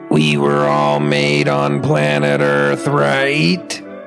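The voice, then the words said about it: Robot voice impression. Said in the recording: “This is my impression of a robot who was built on planet Earth, who's sitting in a room with the humans that built it, and it wants to feel included”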